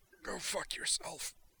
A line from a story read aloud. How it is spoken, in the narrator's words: HN1 gasped